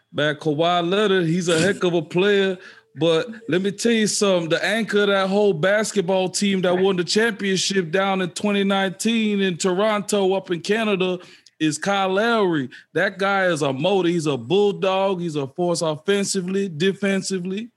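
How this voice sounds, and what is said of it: Imitates another person's voice. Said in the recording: “I've been working on my Perk accent, too. ... That's actually pretty good.”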